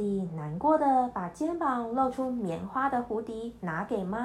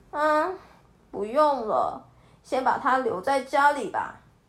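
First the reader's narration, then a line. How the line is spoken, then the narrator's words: Sighing. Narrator (Chinese): 安迪却……叹了一口气说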